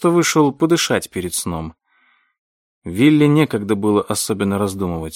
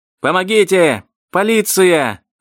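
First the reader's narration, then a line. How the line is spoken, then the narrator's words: Yelling. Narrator (Russian): заорал Роберт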